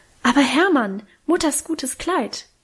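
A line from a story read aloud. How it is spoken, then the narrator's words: Horrified cry. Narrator (German): rief Minchen entsetzt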